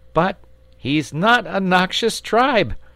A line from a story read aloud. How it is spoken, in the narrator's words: cried the boy distressedly